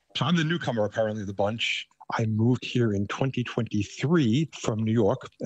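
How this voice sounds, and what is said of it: Thick New York accent. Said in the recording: “I still have a very thick New York accent”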